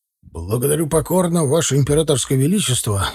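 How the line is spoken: Soldierly bark. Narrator (Russian): собравшись, рявкнул по-солдатски Егоров

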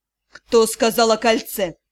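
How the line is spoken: Snorting remark. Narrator (Russian): лорд Тьер-старший, хмыкнув, подметил

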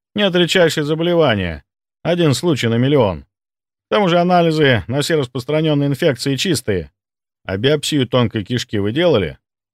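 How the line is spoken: Calm question. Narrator (Russian): спокойно уточнил я

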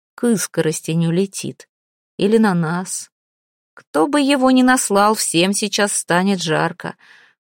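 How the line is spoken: Almost calm. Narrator (Russian): он почти спокойно сказал

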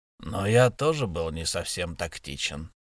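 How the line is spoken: Creaky, grating voice. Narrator (Russian): проскрипел Эл

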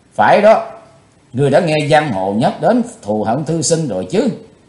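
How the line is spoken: Serious, stern tone. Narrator (Vietnamese): Chí Tôn cười thầm ở trong lòng, nhưng vẫn nghiêm nghị nói

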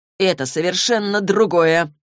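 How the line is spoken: Through gritted teeth. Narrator (Russian): процедил Саймон сквозь зубы

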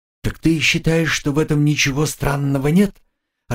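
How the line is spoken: Confused question. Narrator (Russian): растерянно переспросила Агнеса

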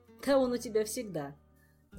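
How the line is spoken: Laughing. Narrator (Russian): засмеялся бескорыстный помощник

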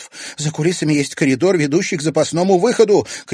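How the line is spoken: Shouted. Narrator (Russian): крикнула Маша Конева

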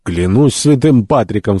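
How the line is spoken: Shouting. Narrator (Russian): в свою очередь закричал Кеннеди

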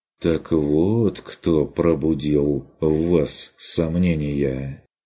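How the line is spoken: Sympathetic drawl. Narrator (Russian): протянул Курт сочувствующе

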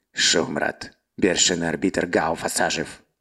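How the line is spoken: Sudden quiet hiss. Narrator (Russian): Вдруг тихо прошипел пленный

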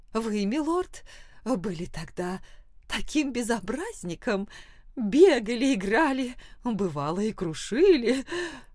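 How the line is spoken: Laughing. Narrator (Russian): Она посмеялась

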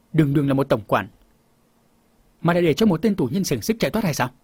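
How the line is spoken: Angry. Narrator (Vietnamese): Phòng bảo chủ tức giận

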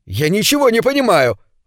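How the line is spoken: Shouted out. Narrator (Russian): выкрикнул он

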